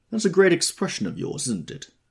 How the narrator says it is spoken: said Tom, sharply

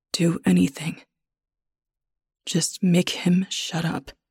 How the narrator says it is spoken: I say, my voice thick

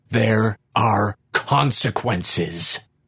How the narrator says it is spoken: the creature snarled gleefully

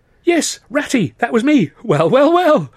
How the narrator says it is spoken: cried

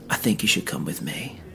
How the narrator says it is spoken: quietly whispered

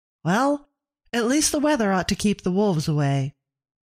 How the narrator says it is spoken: Abigail said brightly

